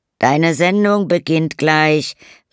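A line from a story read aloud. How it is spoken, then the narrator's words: Calling from another room. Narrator (German): rief Bernard aus dem Wohnzimmer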